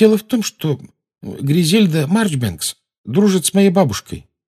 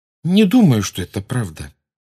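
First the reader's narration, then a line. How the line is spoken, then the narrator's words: Calm voice from behind. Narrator (Russian): спокойно произнес за их спинами Невилл Долгопупс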